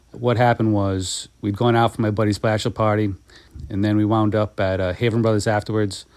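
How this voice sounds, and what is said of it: Rhode Island accent. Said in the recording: “That's my Rhode Island accent.”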